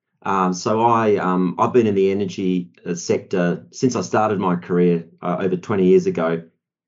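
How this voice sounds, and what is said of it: Australian accent. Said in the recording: “as you can hear from my accent, I'm from Australia, Perth”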